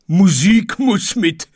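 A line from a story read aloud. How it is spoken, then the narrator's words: Lapwing shouting. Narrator (German): schrie der Kiewit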